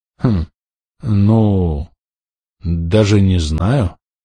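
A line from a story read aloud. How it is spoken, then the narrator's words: Hesitant drawl. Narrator (Russian): протянул Майк в конце концов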